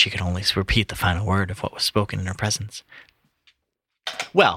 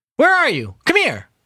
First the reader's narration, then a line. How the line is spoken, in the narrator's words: He called out again